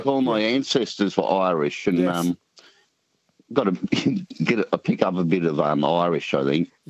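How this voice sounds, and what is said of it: Country New South Wales Australian accent. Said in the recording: “What kind of Aussie accent ... is it? ... I'm thinking it's country New South Wales.”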